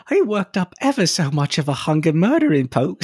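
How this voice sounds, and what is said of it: Put-on British accent. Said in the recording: “I'm an American doing a British accent.”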